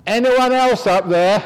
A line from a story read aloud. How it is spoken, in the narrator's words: shouted out